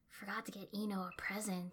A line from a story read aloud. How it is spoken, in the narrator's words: I murmured back